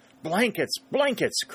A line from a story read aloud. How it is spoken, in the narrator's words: cried Moore